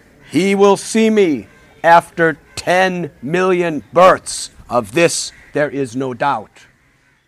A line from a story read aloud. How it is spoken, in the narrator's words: Lord Chaitanya, in a thunderous voice, proclaimed